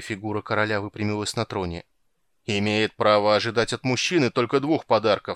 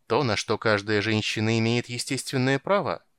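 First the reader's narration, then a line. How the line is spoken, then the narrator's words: Dry reply. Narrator (Russian): сухо ответила Корал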